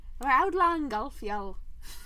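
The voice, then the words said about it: Put-on Scottish accent. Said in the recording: “Can you say that with a Scottish accent?”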